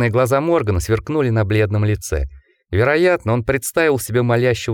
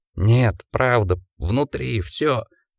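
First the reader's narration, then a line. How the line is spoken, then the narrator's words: Moaning. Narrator (Russian): простонал Джек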